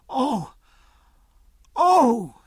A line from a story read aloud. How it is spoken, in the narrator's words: cried, colouring again